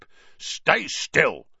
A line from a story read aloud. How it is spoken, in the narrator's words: grunted the dwarf